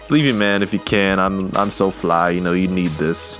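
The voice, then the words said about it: Poor imitation of a rapper's voice. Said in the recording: “my impersonation was terrible”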